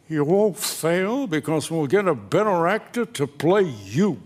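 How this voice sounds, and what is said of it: Impression of Sheldon Leonard. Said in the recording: “this is a pretty good impression of him”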